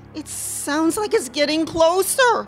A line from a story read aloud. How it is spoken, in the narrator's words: wailed Matthew